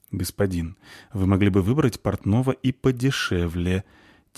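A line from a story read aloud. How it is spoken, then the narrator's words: Quiet grumbling. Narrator (Russian): тихо ворчит Франциско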